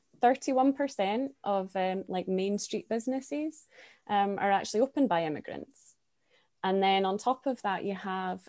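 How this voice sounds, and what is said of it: Foreign accent. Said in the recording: “foreign born, me included. I'm sure you can all hear from my accent”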